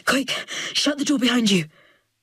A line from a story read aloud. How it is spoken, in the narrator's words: says, breathless, panting, as if he has run all the way here